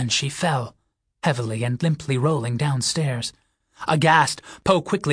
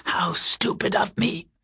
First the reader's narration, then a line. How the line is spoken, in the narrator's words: apologized hoarsely